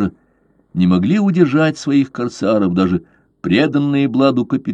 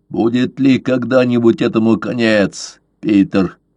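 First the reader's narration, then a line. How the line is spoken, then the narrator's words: Old man's grumble. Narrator (Russian): проворчал старый верзила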